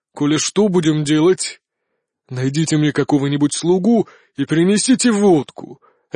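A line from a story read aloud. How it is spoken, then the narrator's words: Angry bark. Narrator (Russian): рявкнул все еще багровый император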